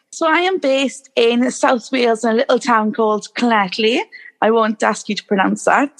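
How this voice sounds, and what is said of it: Beautiful regional accent. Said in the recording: “her beautiful accent”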